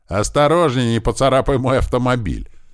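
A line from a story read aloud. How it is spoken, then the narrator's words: Cheerful shout. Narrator (Russian): весело крикнул мужчина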